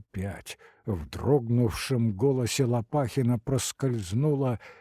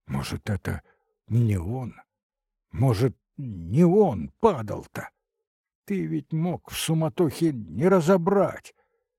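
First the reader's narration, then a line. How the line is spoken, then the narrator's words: Timid, hopeful question. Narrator (Russian): С робко прозвучавшей в голосе надеждой снова спросил Лопахин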